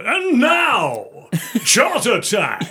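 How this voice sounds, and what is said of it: X Factor announcer voice. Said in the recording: “it's the X Factor voice”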